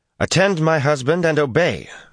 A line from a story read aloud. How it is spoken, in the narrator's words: Fayil put in sharply